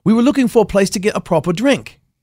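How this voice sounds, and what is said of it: Put-on British accent. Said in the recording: “very very good accent ... That's my British accent.”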